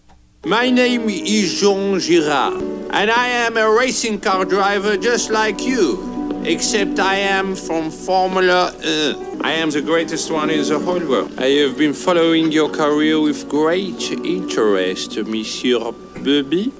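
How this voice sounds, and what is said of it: Exaggerated put-on French accent. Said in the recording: “I can't understand a word you said the whole time. ... you sound like a dog with peanut butter on the roof of your mouth. ... what you are hearing is my accent. I am French.”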